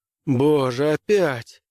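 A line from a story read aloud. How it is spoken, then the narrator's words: Groaned. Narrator (Russian): простонал Граймс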